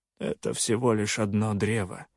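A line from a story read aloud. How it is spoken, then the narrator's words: Calm. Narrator (Russian): спокойно отозвался Соленый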